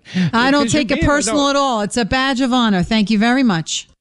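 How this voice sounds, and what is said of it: Very thick New York accent. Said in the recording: “her accent is wonderful ... 10 being a very thick New York accent ... I'm going to give her a 10”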